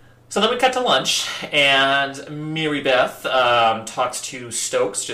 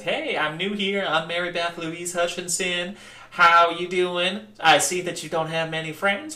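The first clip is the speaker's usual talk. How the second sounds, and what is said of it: Put-on Southern twang accent. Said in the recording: “in her southern twang”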